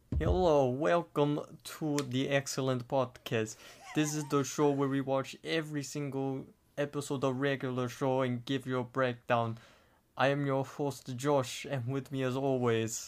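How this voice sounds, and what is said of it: Put-on Russian accent. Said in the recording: “your Russian accent is pretty good ... do our intro in a Russian accent”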